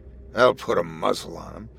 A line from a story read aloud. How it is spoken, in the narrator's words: Goatbeard chuckled, proud of himself